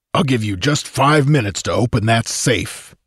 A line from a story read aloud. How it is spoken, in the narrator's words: he growled in a distinctive musical baritone voice